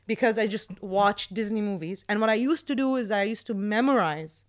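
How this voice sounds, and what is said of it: American accent. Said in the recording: “my accent is from Disney ... had the American accent all my life”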